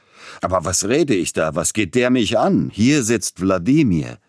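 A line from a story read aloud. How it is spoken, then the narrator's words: Sudden, almost angry exclamation. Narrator (German): Plötzlich aber unterbrach Peter Iljitsch seinen galanten Redeschwall und rief beinahe zornig aus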